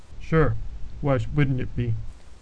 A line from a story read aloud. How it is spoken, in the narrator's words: coolly replied